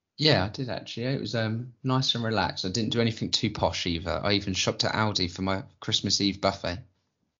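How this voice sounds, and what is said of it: Husky, rough voice. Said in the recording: “You sound a little husky since I last saw you. ... as you can tell, I can hit my throat. ... It's just some beer.”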